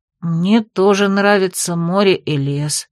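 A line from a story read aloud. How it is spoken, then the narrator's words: Grown-up sigh. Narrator (Russian): по-взрослому вздохнул Бертон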